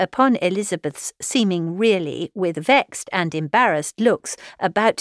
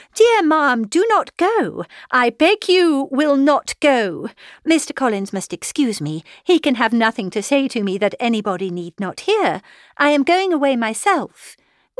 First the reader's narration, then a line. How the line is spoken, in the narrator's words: Elizabeth called out